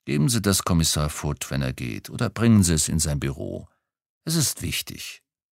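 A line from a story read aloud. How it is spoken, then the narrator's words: Growled. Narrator (German): knurrte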